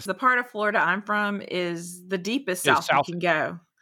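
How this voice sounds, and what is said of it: Southern US accent. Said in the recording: “you sound so Southern when you say that. ... That accent.”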